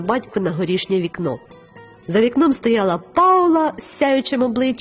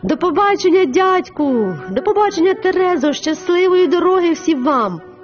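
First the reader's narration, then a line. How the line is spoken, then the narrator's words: Shouted. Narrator (Ukrainian): закричала Паула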